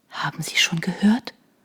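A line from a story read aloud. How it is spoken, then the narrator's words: Barely audible whisper. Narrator (German): flüsterte sie kaum hörbar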